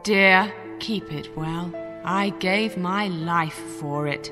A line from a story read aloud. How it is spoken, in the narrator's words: said sadly